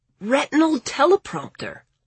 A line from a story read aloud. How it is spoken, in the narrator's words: Lawrence gasped, looking actually scared of her